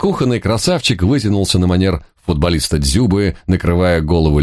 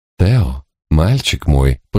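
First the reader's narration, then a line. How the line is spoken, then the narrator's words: Purred. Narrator (Russian): промурлыкала черноокая красавица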